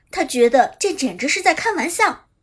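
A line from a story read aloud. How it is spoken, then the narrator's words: Hysterical shouting. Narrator (Chinese): 反应过来的陈冲歇斯底里的喊道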